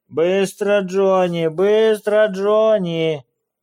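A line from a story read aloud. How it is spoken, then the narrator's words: Rhythmic group chant. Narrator (Russian): Притопывая в такт, нараспев выкрикивали они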